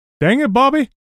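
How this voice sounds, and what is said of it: Hank Hill cartoon character impression. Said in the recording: “your Hank Hill impression ... that was really good. that was really good.”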